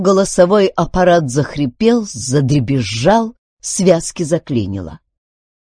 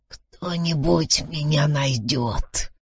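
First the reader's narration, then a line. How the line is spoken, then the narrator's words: Hoarse wheeze. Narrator (Russian): прохрипел он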